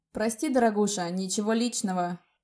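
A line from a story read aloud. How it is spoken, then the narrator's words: Mock-sympathetic, sneering. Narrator (Russian): С наигранным сочувствием ответил Рик, при этом ехидно улыбаясь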